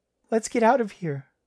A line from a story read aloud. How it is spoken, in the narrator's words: she pleaded